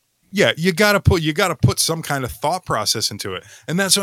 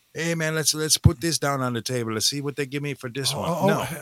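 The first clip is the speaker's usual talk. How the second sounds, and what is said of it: Put-on Latino accent. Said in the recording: “your rendition of a Latino accent”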